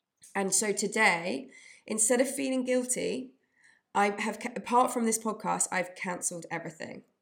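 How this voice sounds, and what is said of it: Tired, run-down voice. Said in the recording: “I can hear in my voice, I'm run down ... I'm just run down”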